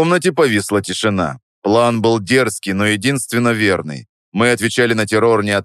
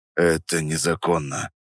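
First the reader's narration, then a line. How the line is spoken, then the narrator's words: Muttered. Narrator (Russian): пробурчал Петров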